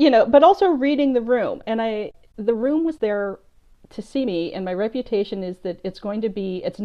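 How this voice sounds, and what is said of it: Usual voice. Nothing is said of it.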